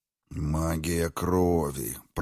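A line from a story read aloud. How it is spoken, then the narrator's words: Muttered. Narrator (Russian): пробормотал Эгмонт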